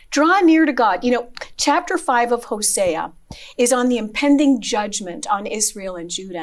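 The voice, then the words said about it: Strained, struggling voice. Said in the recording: “excuse my voice. I'm struggling a little bit in that area.”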